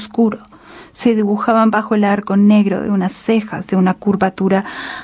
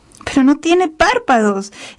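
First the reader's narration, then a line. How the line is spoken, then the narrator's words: Exclaiming. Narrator (Spanish): exclamó Muriland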